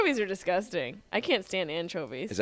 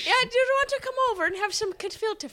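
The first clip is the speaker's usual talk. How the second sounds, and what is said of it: Put-on Irish accent. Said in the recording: “You said it with an Irish accent.”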